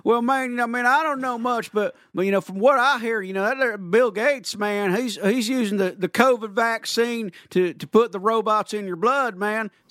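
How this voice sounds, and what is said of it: Cartoon character Boomhauer voice. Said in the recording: “in that tone of voice. ... in Boomhauer.”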